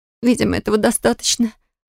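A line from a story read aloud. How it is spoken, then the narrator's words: Pained mutter. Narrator (Russian): пробормотала я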